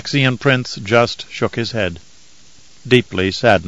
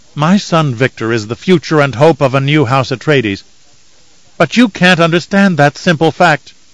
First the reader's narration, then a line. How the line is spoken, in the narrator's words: Kylia snapped